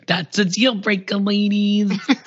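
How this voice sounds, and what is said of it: Put-on terrible Brooklyn accent. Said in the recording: “terrible Brooklyn accent.”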